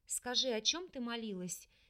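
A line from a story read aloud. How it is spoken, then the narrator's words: Quiet, sympathetic question. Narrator (Russian): тихо спросила подругу, чувствуя ее молчаливое горе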